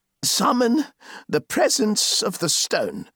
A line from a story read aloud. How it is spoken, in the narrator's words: said the changer, controlling himself but speaking in a somewhat stifled voice